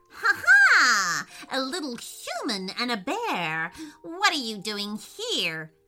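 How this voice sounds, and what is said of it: Furious witch voice with laughter. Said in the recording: “in a furious voice”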